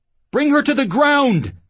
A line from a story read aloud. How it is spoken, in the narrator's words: he yelled, hoping to be heard